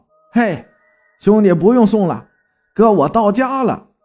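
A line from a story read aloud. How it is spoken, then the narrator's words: Shouting. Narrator (Chinese): 对着后面那俩小子喊道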